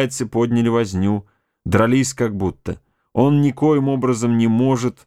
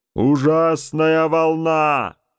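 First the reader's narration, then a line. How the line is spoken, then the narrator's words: Captain shouting back. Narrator (Russian): крикнул в ответ капитан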